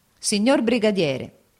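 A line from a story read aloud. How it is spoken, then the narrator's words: Exclaiming. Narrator (Italian): esclamò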